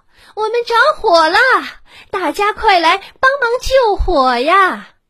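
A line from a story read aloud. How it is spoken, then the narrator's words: Shouted. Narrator (Chinese): 他喊道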